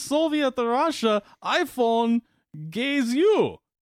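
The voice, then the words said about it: Put-on Russian accent. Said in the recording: “he's Russian, so I got to work on my, I got to practice my Russian accent here real quick.”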